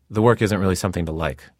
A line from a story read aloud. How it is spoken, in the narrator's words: I told her curtly